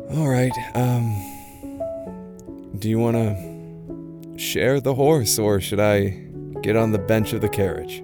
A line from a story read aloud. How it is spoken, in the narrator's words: Luid just sighs and says